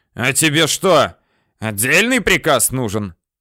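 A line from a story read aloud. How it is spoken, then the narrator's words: Growled. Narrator (Russian): рыкнул Шафиров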